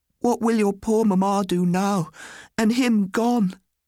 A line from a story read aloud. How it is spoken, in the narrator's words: cried